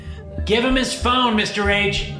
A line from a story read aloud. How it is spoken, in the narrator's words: Max called out from the back of the classroom